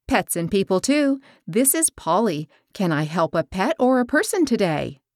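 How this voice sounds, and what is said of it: Peppy, upbeat professional phone voice. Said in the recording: “in my peppy work voice”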